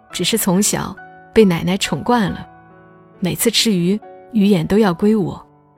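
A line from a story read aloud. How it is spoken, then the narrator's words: Laughing. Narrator (Chinese): 男友笑着说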